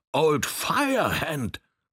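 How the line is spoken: Roaring over loud noise. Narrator (German): brüllte er so laut, dass es durch das Rollen der Räder und das Pusten der Maschine tönte

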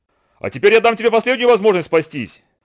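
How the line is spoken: Angry. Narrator (Russian): сердито сказала Ананси

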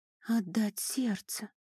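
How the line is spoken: Barely audible whisper. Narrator (Russian): еле слышно прошептала Айка

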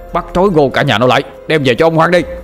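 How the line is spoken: Approaching shouting. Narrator (Vietnamese): tiếng quát tháo ngày càng gần

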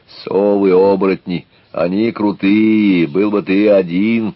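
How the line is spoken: Growled. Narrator (Russian): Лена еще что-то прорычала

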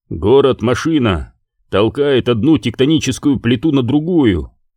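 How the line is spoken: Plain. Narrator (Russian): сказал Железный Владыка

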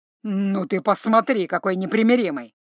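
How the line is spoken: Amused grunt. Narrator (Russian): хмыкнул Эсгио

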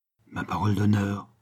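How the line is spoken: Murmured. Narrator (French): murmura M

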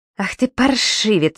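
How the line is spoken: Through gritted teeth. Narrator (Russian): цедит он сквозь зубы

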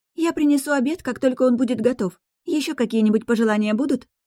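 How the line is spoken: Brightened, cheerful tone. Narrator (Russian): повеселевшим тоном уточнила Мариса

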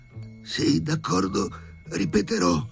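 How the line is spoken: Hoarse, stunned. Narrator (Italian): rispose con voce roca Sharikov sbalordito

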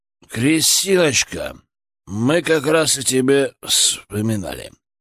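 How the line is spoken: Muffled uncle's voice. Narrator (Russian): глухо прозвучал голос дяди

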